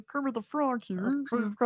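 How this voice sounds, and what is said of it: Kermit the Frog impression. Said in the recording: “I can't do the frog ... What Kermit the Frog? Is that it?”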